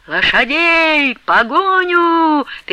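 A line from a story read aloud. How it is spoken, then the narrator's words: Frantic shouting. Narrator (Russian): неистово кричал Потап Максимыч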